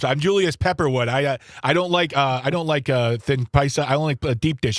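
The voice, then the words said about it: Put-on Chicago accent. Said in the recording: “the quintessential Chicago guy. He talks like this.”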